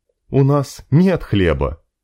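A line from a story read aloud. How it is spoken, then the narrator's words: Gloomy creature voice. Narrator (Russian): мрачно проговорил один из хрюнов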